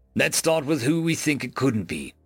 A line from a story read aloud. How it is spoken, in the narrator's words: Noah growled